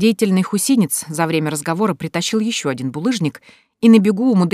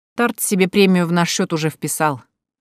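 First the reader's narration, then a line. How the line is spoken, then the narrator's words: Wry snort. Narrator (Russian): хмыкнул Матвей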